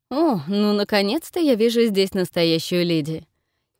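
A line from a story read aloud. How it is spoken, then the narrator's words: Exclamation. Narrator (Russian): Восклицает Том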